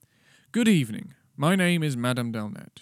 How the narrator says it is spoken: said curtly

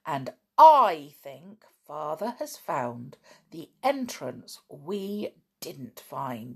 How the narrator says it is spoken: said George triumphantly

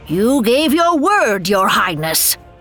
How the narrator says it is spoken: another screamed

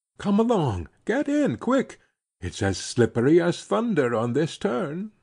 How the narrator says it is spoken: he cried

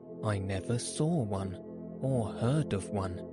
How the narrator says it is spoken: said Alice

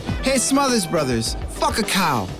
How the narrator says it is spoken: Lennon, a natural heckler, yelled

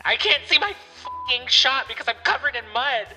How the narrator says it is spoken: she yelled back

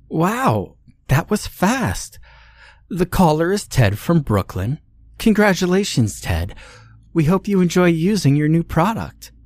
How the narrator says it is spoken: Amy suddenly exclaimed

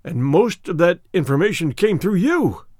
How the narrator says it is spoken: he cried

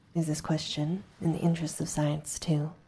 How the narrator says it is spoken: I asked

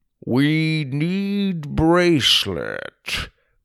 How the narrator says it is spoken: Grandpa explained slowly

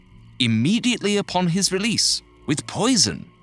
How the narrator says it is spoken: the man said eagerly

